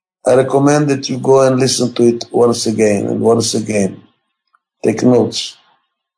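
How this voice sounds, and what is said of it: Non-native accented English. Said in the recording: “my accent, for which I apologize. And by the way, I have an accent in every language I speak”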